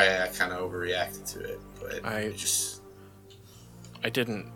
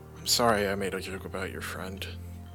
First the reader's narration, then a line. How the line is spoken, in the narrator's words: Grant's still kind of like muttering, he goes